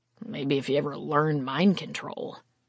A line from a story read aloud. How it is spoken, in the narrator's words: Carr muttered